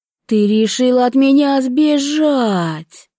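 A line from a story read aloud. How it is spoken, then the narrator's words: Roared. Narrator (Russian): взревел Алфиас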